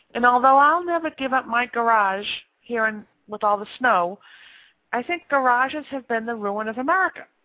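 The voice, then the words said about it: Boston accent. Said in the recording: “as you can all tell because of my accent, I grew up here in Boston”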